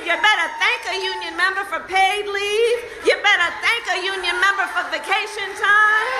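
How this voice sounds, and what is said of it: Detroit-style accent. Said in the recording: “Let's do the Detroit accent again ... No matter how much the accent changes”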